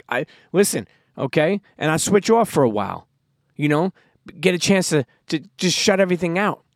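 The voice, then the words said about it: Tough New York Brooklyn accent. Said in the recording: “I have a tough, uh, you know, New York, Brooklyn accent”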